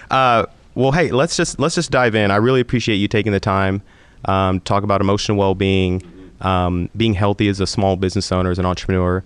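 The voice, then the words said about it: Deep voice, sounds sick. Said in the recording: “You have a great radio voice ... You should hear me when I'm not sick.”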